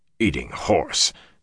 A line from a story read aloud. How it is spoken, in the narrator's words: Tom muttered disgustedly